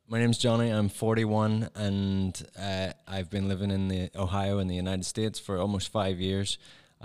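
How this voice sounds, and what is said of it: Northern Irish accent. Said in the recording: “I'm from Northern Ireland, so I have that particular accent.”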